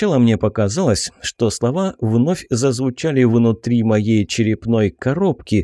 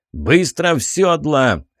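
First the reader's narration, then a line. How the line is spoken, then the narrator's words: Barked. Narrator (Russian): рявкнул Бернард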